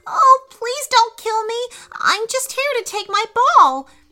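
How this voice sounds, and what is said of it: Shaky, frightened voice. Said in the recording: “in a shaky voice.”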